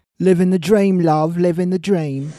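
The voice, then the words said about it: Put-on English accent. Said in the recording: “stop with the accent and the Amy act now ... you're not English, and you're not Amy Winehouse”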